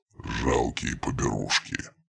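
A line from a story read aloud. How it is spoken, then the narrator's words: Muttering under breath. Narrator (Russian): пробормотал себе под нос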